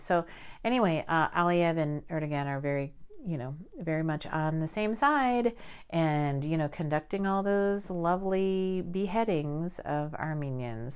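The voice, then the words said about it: Sarcastic tone. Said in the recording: “I say that sarcastically”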